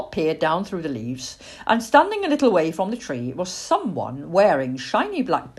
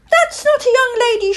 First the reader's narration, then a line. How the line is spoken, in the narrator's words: shrieked Plop